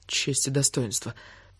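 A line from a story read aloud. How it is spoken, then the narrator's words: Muttering. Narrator (Russian): пробормотала она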